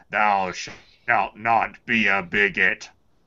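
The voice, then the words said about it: Gandalf-like old wizard voice. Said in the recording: “Don't I sound like Gandalf a little bit? Watch my Gandalf impersonation.”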